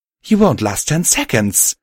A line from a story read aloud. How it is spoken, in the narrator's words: Violet cried out at him